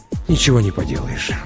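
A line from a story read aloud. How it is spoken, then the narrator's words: Sighed. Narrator (Russian): вздохнул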